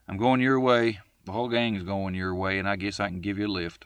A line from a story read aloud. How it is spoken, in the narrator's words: he said with a round laugh